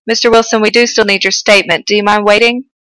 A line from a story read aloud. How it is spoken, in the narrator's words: Judy said quickly